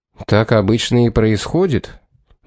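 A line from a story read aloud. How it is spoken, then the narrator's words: Matter-of-fact. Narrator (Russian): будничным тоном заметил Пит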